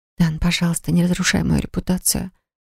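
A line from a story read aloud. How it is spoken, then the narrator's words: Soft whisper. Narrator (Russian): прошептала тихо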